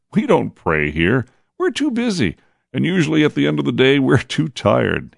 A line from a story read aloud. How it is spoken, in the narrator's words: he laughed